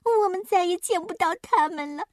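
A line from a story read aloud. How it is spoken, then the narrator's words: Crying. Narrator (Chinese): 小墨迹哭道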